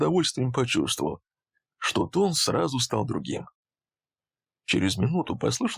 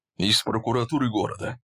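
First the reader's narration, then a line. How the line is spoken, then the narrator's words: Angry. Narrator (Russian): зло ответил Валерий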